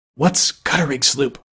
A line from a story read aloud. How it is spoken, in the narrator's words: whispered Gub-Gub